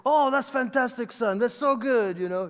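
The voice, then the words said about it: Imitates another person's accent. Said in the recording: “His accent a little bit.”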